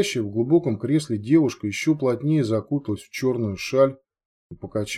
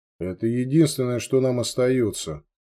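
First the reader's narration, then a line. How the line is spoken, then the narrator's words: Very calm reply. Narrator (Russian): Очень спокойно ответил ей брат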